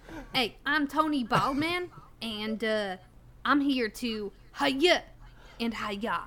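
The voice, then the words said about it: Put-on New England accent. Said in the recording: “I'm going to go to a fucking New England accent if I say Tony.”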